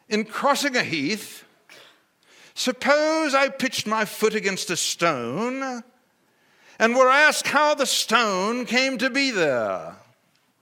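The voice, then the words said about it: Put-on British accent. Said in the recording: “I'm going to read it to you here and with a British accent”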